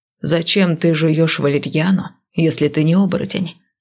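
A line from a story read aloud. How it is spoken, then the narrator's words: Plain. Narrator (Russian): спросил Лоран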